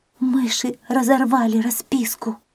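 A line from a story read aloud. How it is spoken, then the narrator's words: Cat whispering. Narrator (Russian): прошептала кошка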